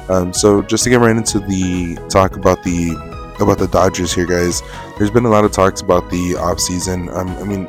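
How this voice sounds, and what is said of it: Hoarse voice, partly losing it. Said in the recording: “I have been a little bit under the weather, and my voice is going in and out ... I get a little bit of a throat thing, and I kind of start losing my voice.”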